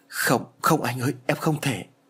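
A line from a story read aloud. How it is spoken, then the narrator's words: Trembling. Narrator (Vietnamese): Liễu run rẩy nói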